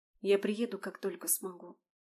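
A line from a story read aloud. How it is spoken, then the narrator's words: Very quiet whisper. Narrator (Russian): очень тихо прошептала Алиса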